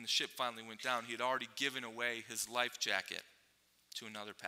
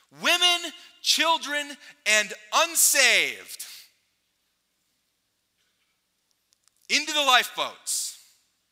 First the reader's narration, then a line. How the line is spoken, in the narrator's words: he ran throughout the ship yelling